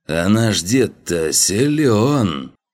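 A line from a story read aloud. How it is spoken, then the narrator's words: Young admiring voice. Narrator (Russian): услышал он молодой восхищенный голос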